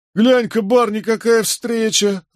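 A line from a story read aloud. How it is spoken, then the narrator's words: Loud laughter. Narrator (Russian): расхохотался Джеральд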